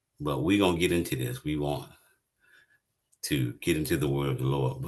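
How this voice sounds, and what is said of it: Slightly hoarse voice. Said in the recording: “Pray for my voice tonight, a little bit hoarse. Been dealing with some allergies”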